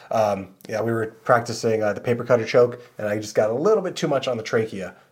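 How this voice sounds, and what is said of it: Slightly raspy, hoarse voice. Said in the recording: “I have a slight rasp in my throat ... my voice is a little bit off”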